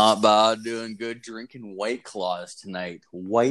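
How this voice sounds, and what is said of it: Usual voice. Nothing is said of it.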